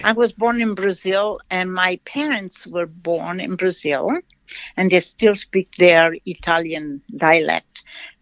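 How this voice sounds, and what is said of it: Slight foreign accent. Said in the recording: “People listening probably hear a little accent. So are you from Italy?”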